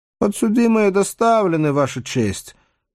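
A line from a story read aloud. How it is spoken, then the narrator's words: Unexpectedly high squeak. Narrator (Russian): неожиданно тонким голоском пищит сержант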